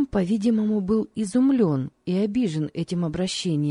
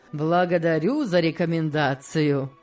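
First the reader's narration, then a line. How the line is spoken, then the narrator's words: Laughing. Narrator (Russian): рассмеялся Сен-Клер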